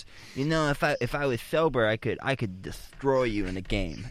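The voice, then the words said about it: Imitates another person's drunk boasting voice. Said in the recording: “That's a great impression.”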